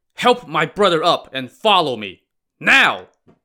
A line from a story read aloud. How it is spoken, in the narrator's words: he shouted again